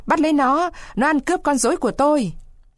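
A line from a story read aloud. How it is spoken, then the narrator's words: Loud angry yell. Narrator (Vietnamese): lão Caraba Baraba hét tướng lên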